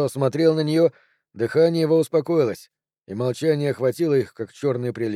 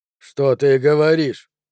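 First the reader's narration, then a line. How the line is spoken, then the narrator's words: Hoarse low question. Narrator (Russian): спросил Джо, наконец, хриплым и низким голосом, и глаза его горели тревогой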